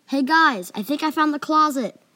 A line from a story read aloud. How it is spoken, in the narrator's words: I yelled